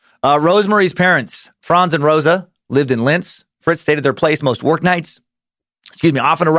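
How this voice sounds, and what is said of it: Usual voice. Nothing is said of it.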